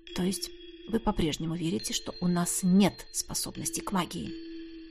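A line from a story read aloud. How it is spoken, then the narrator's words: Quiet clarifying question. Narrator (Russian): тихо уточнил я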